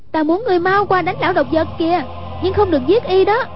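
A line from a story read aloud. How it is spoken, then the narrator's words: Calling out. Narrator (Vietnamese): Hoàng Dung kêu lên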